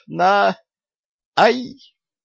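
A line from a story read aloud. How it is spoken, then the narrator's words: Frightened squeak. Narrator (Russian): испуганно пискнула Лилия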